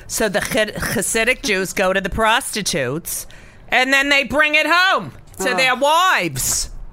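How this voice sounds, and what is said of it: Imitates another person's voice. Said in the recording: “I'm going to talk like my mother now.”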